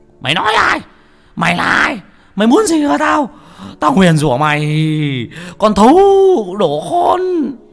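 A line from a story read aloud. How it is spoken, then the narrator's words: Howling old man. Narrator (Vietnamese): Lão dãy đành đạch như là con chó ở trên nương, nó rú lên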